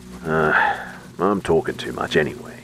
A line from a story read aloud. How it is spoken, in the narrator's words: he grumbled